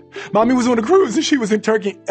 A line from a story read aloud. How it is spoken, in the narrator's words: Ellen said hysterically